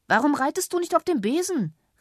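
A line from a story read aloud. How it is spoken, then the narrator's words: Pirate shouting. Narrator (German): rief der Pirat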